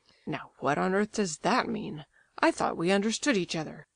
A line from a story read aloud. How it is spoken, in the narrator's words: he exclaimed